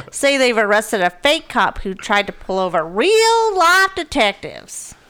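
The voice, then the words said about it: Put-on Southern American accent. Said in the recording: “I just used a southern accent for that. ... Sound like a redneck.”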